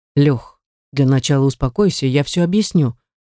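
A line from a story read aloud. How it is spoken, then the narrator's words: Calm. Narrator (Russian): начинает спокойно Стас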